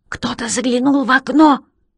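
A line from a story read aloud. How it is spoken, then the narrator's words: Whispered. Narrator (Russian): прошептала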